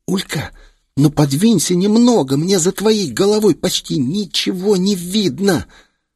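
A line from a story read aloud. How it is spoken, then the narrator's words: Hissing. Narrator (Russian): шипение Филезы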